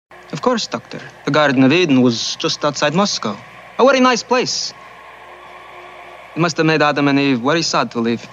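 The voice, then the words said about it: Exaggerated fake Russian accent, Chekhov. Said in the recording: “butchers the accent, most notoriously substituting W for V ... the Russian accent ... the accent is ridiculous”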